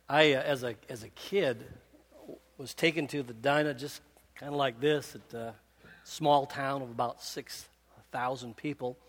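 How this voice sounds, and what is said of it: Speaker's regional accent. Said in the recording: “that's my main accent coming out”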